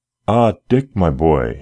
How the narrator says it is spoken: he exclaimed joyfully

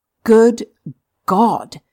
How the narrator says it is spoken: exclaimed Stopford eagerly

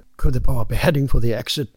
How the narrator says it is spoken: Herrera whispered

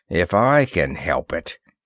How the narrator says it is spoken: Ross muttered between his teeth

